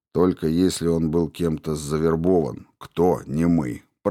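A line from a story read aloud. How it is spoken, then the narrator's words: Grumbling. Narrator (Russian): проворчал Дэра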